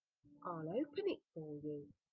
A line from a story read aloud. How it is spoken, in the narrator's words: said Kezia kindly